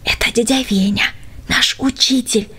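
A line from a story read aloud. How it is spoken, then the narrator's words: Whispering. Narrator (Russian): шепнул Юра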